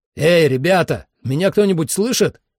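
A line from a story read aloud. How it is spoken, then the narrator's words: Shouting. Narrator (Russian): крикнул я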